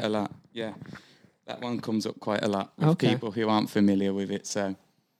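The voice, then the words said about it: British Birmingham accent. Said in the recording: “I think you've got a lovely accent... it's unmistakably a British accent... There's not really many other people in the public spotlight with this accent apart from, say, Ozzy Osbourne... Is he from Birmingham? He is indeed”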